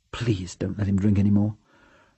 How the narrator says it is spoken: Rosemary whispered behind Gordon's back

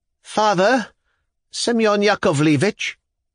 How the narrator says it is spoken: The voice of the poor lady rang out all at once, plaintively, though so sharply that it was startling

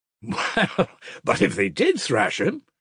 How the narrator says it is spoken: he cried, laughing

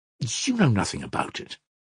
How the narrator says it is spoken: snapped irritably

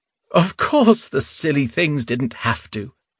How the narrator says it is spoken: Lyuda said with a laugh

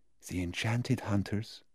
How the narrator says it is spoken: almost a whisper

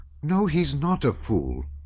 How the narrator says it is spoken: replied Natasha indignantly and seriously

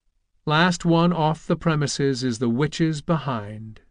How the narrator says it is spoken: said Tom calmly

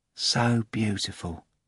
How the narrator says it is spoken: Ivan said, without envy, but sadly and with a sort of quiet tenderness

